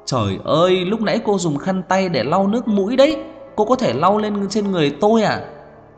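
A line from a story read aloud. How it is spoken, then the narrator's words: Angry shout. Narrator (Vietnamese): Trang Hạo Nhiên lại tức giận kêu to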